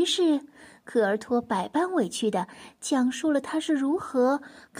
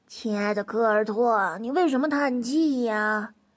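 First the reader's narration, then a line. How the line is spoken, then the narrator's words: Respectful question. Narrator (Chinese): 梯培……恭恭敬敬的……问道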